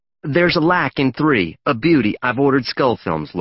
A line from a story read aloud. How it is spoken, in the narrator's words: Laura said